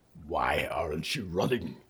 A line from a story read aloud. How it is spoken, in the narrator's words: he growled